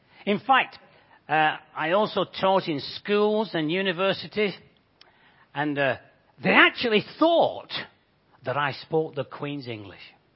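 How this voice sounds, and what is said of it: Bolton English accent. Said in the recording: “my Bolton accent”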